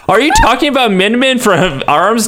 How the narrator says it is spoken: Todd yelled back

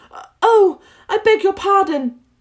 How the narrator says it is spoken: cried Alice again

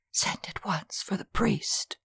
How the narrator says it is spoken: whisper

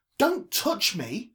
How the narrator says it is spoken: shouted

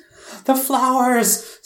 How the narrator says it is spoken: screamed the blue goblin

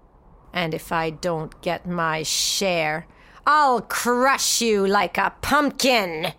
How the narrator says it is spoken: he snarled

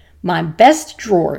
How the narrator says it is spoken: she roared

